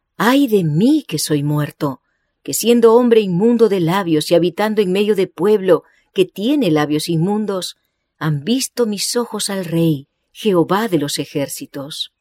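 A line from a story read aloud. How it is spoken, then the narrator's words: Exclaimed. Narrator (Spanish): cuando Isaías contempló la gloria del Señor, exclamó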